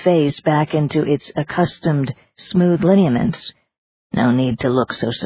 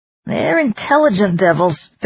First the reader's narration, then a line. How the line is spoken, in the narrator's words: Fitharn growled